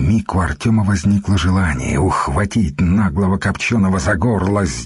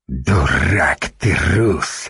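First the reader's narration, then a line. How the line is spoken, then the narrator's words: Hissing in face. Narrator (Russian): прямо в лицо Артему прошипел печенек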